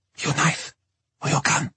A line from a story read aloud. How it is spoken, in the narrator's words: whispered